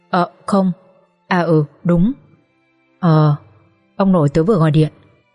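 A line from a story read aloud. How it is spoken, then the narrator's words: Trembling voice. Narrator (Vietnamese): My trả lời với chất giọng run run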